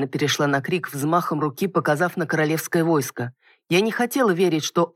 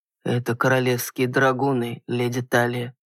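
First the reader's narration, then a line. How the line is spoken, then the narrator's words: Muffled voice. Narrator (Russian): глухим голосом проговорил мужчина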